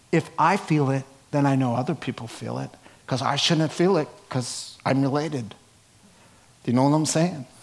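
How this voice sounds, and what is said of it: Slight Brooklyn accent. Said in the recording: “Did you hear my little Brooklyn accent coming out there?”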